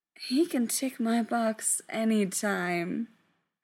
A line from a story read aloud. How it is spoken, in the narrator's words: Frank said dreamily